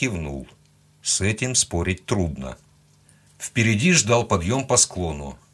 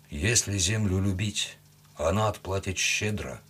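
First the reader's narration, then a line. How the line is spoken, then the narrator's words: Quiet young horseman. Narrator (Russian): тихо сказал джигит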